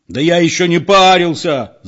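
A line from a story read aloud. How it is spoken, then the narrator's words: Yelling. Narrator (Russian): заорал спокойный Петро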